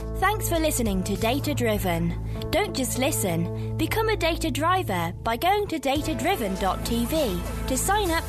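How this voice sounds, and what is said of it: Posh British female accent. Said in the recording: “a British lady doing the voiceover for the intros and the outros ... a bit posh with a nice British accent”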